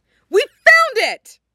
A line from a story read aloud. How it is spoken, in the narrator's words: Nami exclaimed jubilantly